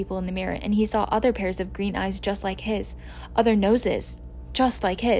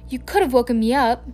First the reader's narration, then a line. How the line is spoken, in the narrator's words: said crossly